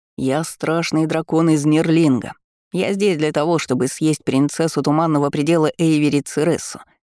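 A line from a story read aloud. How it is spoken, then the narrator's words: Sinister declaration. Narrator (Russian): заявил Дункан зловещим голосом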